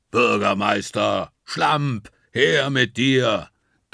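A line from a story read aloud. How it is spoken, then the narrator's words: Thunderous, deafening shout. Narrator (German): donnert er so laut, dass Juli und ich uns die Finger in die Ohren stecken müssen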